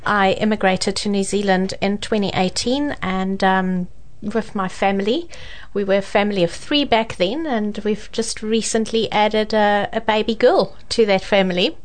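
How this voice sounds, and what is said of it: South African accent. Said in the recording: “I can hear a little bit of an accent there. Not too bad. ... as from the accent, you can tell that I'm proudly South African ... that South African accent is still coming through quite strong.”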